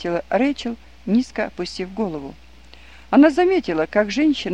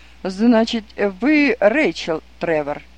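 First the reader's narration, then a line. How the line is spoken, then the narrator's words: Exclaimed, then slower. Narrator (Russian): воскликнул он, заговорив с ней медленнее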